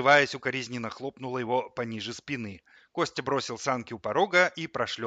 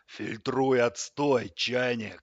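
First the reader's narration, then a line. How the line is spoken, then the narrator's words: Growl. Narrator (Russian): прорычал кран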